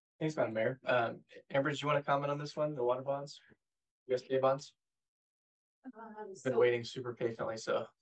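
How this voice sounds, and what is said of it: Voice giving out, strained. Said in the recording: “my voice is kind of going”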